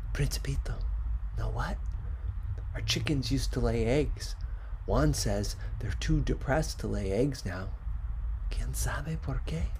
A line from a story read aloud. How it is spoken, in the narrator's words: whispering